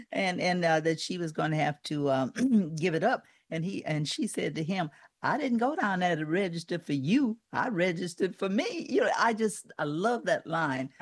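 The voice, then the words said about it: Southern American accent. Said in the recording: “I like that accent ... I'm a Southerner ... Louisiana”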